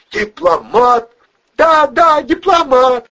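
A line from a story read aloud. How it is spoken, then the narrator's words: Loud woman's voice. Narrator (Russian): громко произнесла женщина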